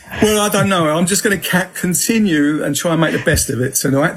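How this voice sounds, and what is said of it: Southeast London accent. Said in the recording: “I was brought up in Peckham, London, southeast London, so that's my accent. And I hope everybody understands me”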